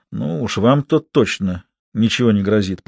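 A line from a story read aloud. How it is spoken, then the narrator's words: Muttered. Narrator (Russian): пробормотал Жозеф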